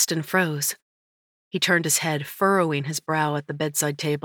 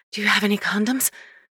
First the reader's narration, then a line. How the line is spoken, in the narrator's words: Panting as his lips skated up and down the side of my throat, I managed to whisper